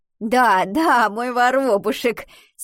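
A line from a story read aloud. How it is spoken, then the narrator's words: Laughing. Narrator (Russian): смеялась Альвина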